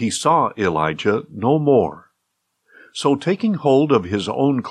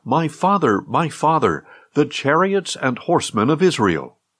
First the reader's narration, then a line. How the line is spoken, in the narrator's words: he cried out